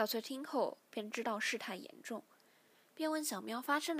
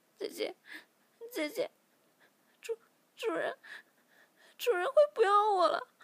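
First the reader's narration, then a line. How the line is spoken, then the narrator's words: Tearful after crying. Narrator (Chinese): 小喵哭了一会儿，便说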